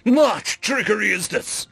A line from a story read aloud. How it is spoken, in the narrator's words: he shouted